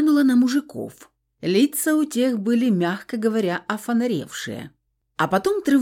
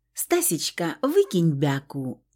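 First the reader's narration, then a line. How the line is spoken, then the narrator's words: Sugary pleading voice. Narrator (Russian): Елейным голосочком попросила я сестру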